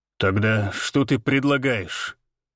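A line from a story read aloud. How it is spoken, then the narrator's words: Through clenched teeth. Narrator (Russian): Процедил сквозь зубы Валентин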